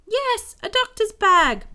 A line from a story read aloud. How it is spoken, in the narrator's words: Bingo yells